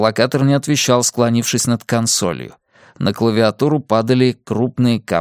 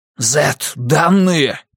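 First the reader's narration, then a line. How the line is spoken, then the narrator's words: Hissed. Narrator (Russian): прошипел Грюнвальд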